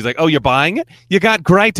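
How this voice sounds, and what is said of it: Poorly imitated Queens accent. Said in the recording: “appropriating their accent. I know I'm trying and butchering it”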